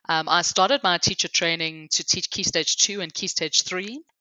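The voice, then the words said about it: Hybrid South African-English accent. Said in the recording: “my hybrid accent. So I grew up in South Africa, but I've lived my adult life here in England.”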